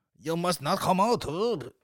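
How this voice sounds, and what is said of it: Vaguely Japanese put-on accent. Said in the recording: “What is that accent? What is that vaguely Japanese?”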